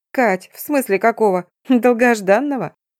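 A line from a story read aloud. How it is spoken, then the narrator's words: Chuckling woman. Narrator (Russian): хохотнула подруга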